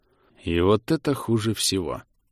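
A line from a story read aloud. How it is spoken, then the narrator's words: Through gritted teeth. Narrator (Russian): процедил Хинград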